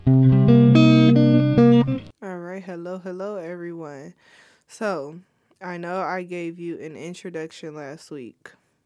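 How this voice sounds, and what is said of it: Sick, congested, nasal voice. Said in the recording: “I'm sick and I'm pretty sure you can hear it in my voice. It I just I sound terrible. ... my nose is congested. I have head congestion”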